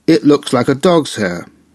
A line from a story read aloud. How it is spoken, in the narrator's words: exclaiming